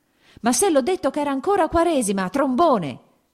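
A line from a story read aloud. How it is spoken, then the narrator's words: Shout. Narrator (Italian): gridò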